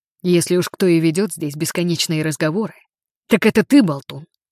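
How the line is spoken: Snapped back. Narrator (Russian): огрызнулся

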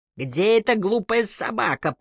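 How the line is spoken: Growl. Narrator (Russian): прорычал он в ответ

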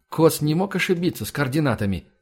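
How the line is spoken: Plain question. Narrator (Russian): спросил Влад

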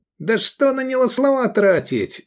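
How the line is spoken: Woman shouting. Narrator (Russian): закричала третья

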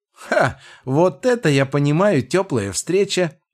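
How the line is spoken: Laughing, increasingly worked up. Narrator (Russian): расхохоталась, явно входя в раж

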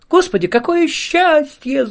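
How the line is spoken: Shouted. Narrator (Russian): закричала Ида

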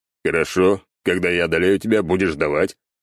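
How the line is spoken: Smirking grunt reply. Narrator (Russian): хмыкнул в ответ

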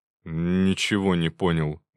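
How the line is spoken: Grumbling. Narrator (Russian): буркнул Шуклин

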